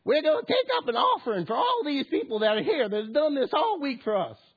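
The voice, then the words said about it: Put-on Southern Florida accent. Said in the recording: “Florida evangelist ... forgive my accent, I don't really do accents very well.”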